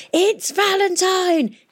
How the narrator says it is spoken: he shouted

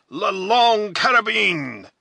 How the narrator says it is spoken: A burst of voices had shouted simultaneously

